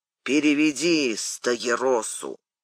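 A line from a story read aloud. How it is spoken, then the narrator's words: Through gritted teeth. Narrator (Russian): сквозь зубы Анне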